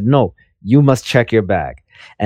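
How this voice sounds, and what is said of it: Imitates a small Italian woman's accent. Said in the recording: “your inadvertent Habib impression was on point ... I wasn't even trying to do an impression ... You were going for a little Italian woman, but I got an excellent Habib right there”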